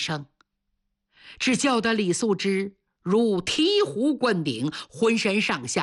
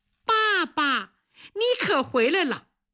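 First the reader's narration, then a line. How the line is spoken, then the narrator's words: Little girl's crisp call. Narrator (Chinese): 小姑娘 脆生生地喊了一声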